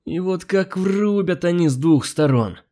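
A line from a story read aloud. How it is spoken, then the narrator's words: Groaned. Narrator (Russian): простонал клиент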